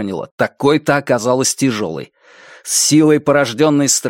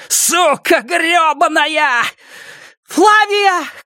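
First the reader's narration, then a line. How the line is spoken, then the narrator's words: Shouting. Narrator (Russian): крикнула Робин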